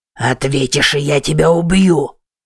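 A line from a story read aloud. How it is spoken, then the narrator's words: Growled. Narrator (Russian): прорычал Уильям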